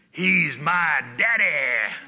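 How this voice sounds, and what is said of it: Imitated thick Tennessee accent. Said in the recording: “he's got this really thick Tennessee accent ... I can't do it like he can”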